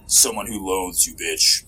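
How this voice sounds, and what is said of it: Deep rumbling voice. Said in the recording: “A deep voice rumbled from the darkness.”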